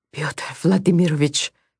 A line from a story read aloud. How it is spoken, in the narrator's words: the man whispered